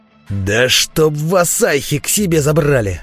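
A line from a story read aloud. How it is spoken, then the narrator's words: Furious roar. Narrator (Russian): проревел бандит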